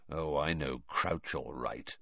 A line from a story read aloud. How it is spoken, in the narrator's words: said quietly